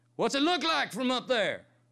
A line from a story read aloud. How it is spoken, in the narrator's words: Catch cupped his hands over his mouth and shouted to Teddy